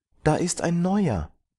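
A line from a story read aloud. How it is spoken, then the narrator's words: Small child calling out. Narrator (German): kleine Kinder, das Kleinste rief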